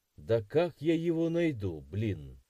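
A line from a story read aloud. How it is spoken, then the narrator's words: Grumbling. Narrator (Russian): проворчал я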